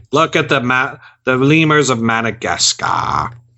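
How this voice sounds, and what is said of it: Imitates another person's voice. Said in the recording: “That's a good impression”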